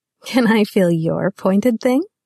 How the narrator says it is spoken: she giggled

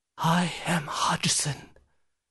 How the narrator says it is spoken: whispered

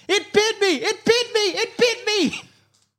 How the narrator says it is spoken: Ken screams

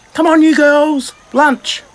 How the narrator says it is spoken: Sissy yelled out

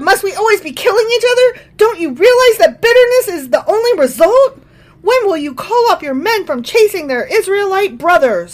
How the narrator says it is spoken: Abner shouted down to Joab

